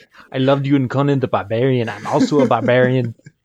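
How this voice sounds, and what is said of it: Imitates another person's voice. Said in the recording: “doing an Arnold voice for an alligator”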